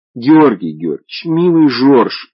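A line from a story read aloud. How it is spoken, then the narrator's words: Pleading. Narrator (Russian): взмолилась она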